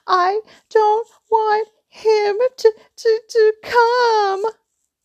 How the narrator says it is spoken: Dudley yelled between huge pretend sobs

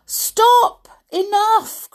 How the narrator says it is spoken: cried the mother

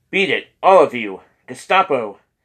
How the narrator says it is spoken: someone shouted

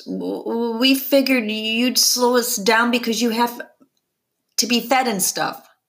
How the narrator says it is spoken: Claire finally stammers

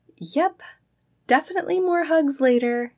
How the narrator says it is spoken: she called out in a soft voice

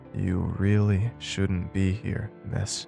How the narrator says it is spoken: she said slowly in her low tones

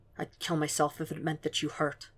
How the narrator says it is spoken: Will murmured

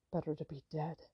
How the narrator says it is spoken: he murmured

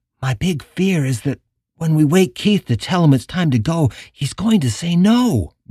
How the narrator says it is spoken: Michelle had whispered

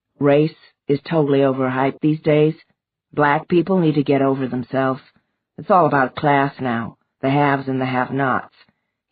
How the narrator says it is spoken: he told her evenly

